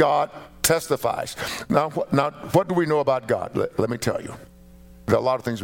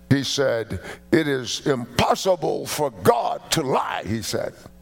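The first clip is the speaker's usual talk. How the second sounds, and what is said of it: Imitated Nigerian-British mixed accent. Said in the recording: “that really beautiful Nigerian-British mixed accent.”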